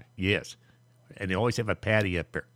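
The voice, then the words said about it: Poor imitation of a Boston politician's accent. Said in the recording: “If I was going to do a Kennedy accent ... excuse my terrible JFK impersonation”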